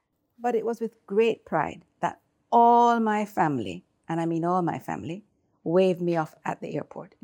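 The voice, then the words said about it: Non-British foreign accent. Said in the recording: “Maybe you can tell from my accent. I'm not British.”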